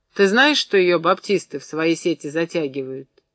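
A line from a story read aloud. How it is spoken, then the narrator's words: Calm question. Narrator (Russian): спросил спокойно Захар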